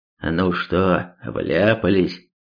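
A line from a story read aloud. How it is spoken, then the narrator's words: Muffled roar. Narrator (Russian): глухо проревел Альт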